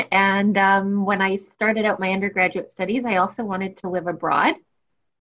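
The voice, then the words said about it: Canadian English accent. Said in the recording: “you can hear from my accent, I'm not originally from the UK. I'm Canadian.”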